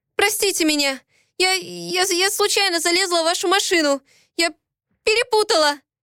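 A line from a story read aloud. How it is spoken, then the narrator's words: Stammering babble. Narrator (Russian): пролепетала я, запинаясь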